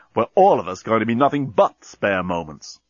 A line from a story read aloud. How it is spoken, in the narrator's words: exclaimed Dan